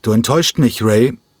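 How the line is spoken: Slightly louder after pause. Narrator (German): Nach einer kurzen Zäsur rief er ein wenig lauter

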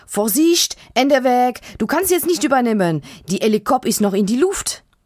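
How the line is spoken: Calling out. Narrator (German): ruft

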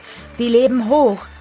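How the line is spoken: Crowd calling out. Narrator (German): rief die Menge ihnen zu

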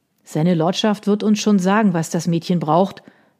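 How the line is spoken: Gruff. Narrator (German): sagte der andere barsch

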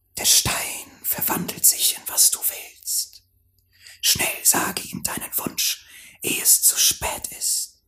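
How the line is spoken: Snake hissing into ear. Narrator (German): die Schlange und zischte ihm ins Ohr

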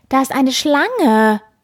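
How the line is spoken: Call. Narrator (German): ruft die Frau

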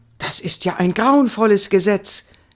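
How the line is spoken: Excited calling out. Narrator (German): rief Indiana aufgeregt

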